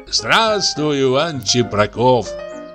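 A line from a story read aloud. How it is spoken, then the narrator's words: Drunk, whinnying laughter. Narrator (Russian): Пьяный он был очень бледен и все потирал руки и смеялся, точно ржал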